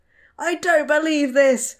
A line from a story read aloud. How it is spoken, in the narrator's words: Frank shouted